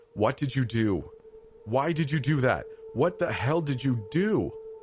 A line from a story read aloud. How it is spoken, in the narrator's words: Between sobs, my mom